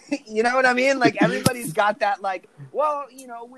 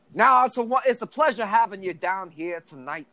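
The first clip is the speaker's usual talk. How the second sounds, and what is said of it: Exaggerated Southern New Orleans accent. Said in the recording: “Hollywood loves New Orleans, but for some reason they just butcher the fuck out of it ... we are Southern town. We all have this accent.”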